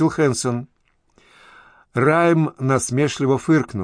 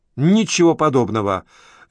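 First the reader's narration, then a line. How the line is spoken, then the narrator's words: Sharp objection. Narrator (Russian): резко возразил Райм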